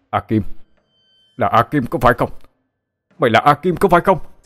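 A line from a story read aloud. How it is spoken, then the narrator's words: Sudden shout. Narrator (Vietnamese): Bỗng có người hét lên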